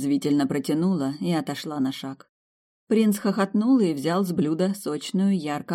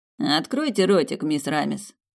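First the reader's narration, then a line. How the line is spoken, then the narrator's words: Mocking male voice. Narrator (Russian): насмешливо произнес он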